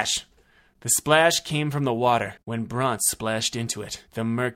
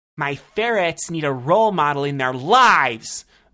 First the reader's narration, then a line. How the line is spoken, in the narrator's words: the woman yelled